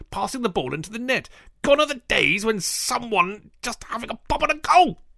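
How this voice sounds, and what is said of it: Impression of Jonathan Kidd. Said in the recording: “read this in the style of Jonathan Kidd ... what a brilliant impersonation of me that is?”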